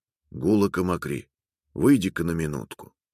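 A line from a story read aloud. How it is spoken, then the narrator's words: Quiet, muffled call. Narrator (Russian): Кто-то позвал ее тихим глухим голосом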